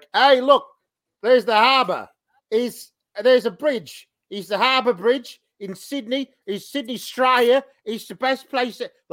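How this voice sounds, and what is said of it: Thick Australian accent. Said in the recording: “his Australian accent is fairly thick in the States... really thickened it up... you could barely understand some of the stuff he was saying”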